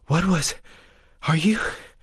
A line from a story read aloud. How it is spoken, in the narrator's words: Breas gasped